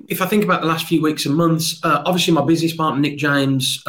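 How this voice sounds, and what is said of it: Leicester English accent. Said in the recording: “I love your accent. It's, what's a, it's a Leicester accent”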